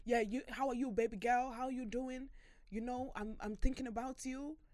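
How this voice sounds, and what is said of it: Imitated Nigerian accent. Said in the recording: “he was Nigerian, but he was... The accent, it's like ... my dad sounds like that”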